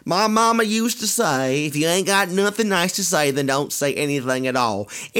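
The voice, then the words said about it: Deliberately bad Southern country accent. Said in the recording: “in my best country southern accent ever, which is going to be horrible”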